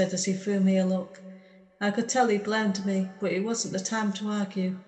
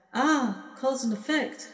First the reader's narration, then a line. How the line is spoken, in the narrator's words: she exclaimed